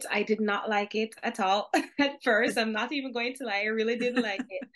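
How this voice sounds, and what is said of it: Jamaican accent. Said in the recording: “probably based on my accent, you can hear it, I'm Jamaican”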